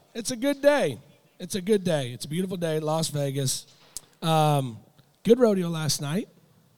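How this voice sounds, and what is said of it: Voice in poor condition. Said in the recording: “Sorry for my vocals. ... my voice is being a pussy”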